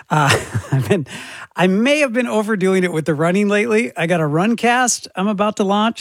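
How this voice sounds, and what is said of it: Hoarse, strained losing voice. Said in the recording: “I'm losing my voice. And you can probably tell.”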